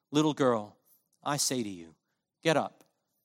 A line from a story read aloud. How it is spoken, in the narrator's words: he says in a voice that must have been ever so gentle